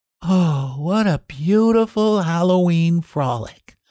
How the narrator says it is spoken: sighed Babette

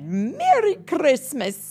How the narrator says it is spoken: happily

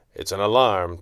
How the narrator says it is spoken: Two said gravely

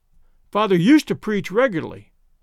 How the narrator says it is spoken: said the girl, eagerly

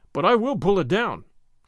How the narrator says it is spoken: cried Gordon

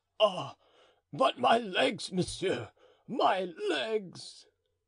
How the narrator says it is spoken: groaned the faithful servant

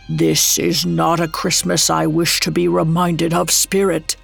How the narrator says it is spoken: Scrooge croaked out

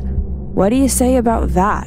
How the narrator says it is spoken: She sighed

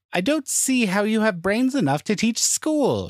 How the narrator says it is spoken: she cried in exasperation

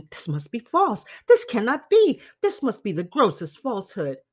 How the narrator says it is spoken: repeatedly exclaiming

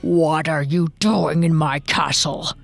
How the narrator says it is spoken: growled the ogre

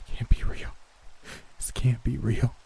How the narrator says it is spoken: I whimpered

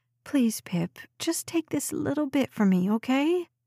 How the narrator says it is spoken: Her voice turned whiny

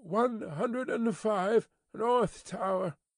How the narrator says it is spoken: They heard him mutter

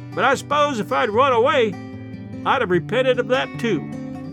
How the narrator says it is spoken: as the distance between us widened, she shouted after us

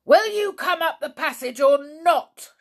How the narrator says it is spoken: shouted the voice angrily

